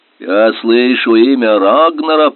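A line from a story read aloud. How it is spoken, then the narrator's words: Grumbling. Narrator (Russian): проворчал Убе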